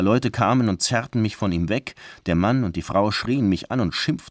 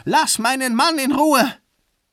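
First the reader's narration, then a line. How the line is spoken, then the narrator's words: Screamed. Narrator (German): Sie schrie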